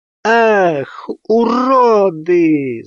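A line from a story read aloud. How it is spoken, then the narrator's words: Distant woman screaming. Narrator (Russian): завопил женский голос откуда-то из глубины квартиры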